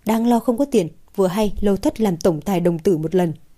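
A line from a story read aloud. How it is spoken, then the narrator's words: Bursting into laughter. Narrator (Vietnamese): Nguyệt cất xong hai xương của cải liền bật cười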